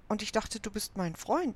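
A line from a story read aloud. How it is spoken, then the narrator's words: Plain. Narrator (German): antwortete Finn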